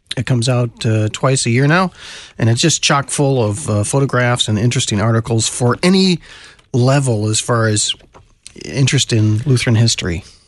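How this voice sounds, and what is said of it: Congested voice with a cold. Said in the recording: “I brought my radio voice. I've got a cold this week.”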